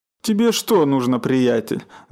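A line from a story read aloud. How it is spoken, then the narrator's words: Angry growl. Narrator (Russian): заворчал Миша и тоже начал сердиться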